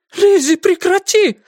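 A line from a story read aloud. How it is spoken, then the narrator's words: Cried out. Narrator (Russian): вскрикнула Аманда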